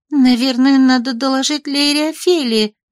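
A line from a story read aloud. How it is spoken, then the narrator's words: Uncertain suggestion. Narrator (Russian): предположила она неуверенно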